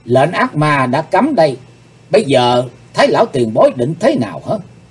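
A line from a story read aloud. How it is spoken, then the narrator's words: Stern question. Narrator (Vietnamese): Hắc Phụng Hoàng nghiêm giọng hỏi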